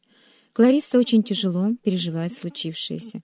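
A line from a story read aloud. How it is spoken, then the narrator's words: Quiet voice. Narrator (Russian): тихо сказал Брэнсон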